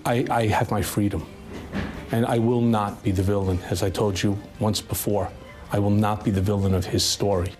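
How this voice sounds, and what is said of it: Heavy New York accent. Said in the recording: “His New York accent is way worse than I thought it was. There were times he almost sounded gangster-like”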